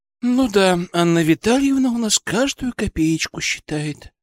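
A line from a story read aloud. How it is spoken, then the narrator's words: Sighing. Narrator (Russian): вздохнула Вероника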